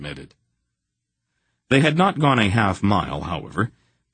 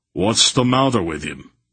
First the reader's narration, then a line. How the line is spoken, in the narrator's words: Barak demanded sharply